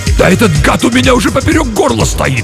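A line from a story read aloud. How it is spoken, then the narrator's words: Barked. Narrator (Russian): рявкнул Юров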